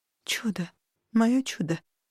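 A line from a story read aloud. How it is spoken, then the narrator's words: Tearful mumbling. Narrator (Russian): Все бормотало я, чувствуя, как по щекам катятся горячие слезы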